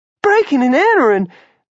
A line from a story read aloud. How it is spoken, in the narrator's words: Jenny gasped